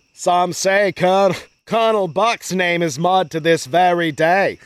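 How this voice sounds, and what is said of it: Amateurish put-on accent. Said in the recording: “That's the best accent I got. ... I didn't go to Juilliard.”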